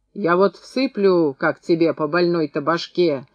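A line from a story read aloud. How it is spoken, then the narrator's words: Roaring. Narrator (Russian): взревел наконец Устин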